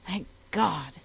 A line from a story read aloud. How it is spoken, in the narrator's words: cried the youth, recovering his breath